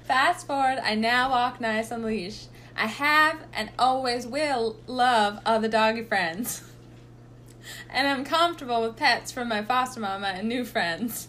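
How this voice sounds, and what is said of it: Put-on Southern accent. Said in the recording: “I think she's going to be Southern.”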